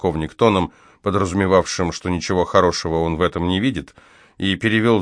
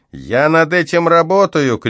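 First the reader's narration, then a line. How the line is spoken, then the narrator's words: Shouted reply from behind. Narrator (Russian): крикнул в ответ сержант из-за моей спины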